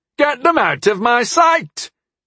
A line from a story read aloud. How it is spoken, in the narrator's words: Clavellus shouted